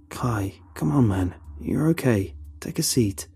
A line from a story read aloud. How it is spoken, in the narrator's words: Carl suggests calmly